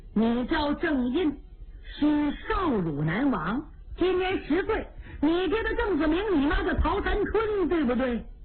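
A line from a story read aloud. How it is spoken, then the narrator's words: Old priest laughing. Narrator (Chinese): 老道笑了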